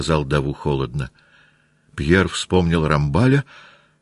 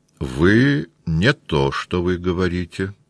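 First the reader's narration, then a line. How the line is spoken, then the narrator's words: Plain. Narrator (Russian): сказал Даву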